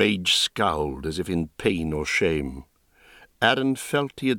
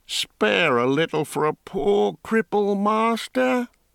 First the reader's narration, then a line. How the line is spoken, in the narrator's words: whined